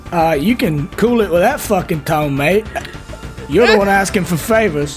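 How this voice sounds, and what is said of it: Put-on southern plantation owner accent. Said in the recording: “It's literally a southern accent... southern accent threw him off... so plantation owner”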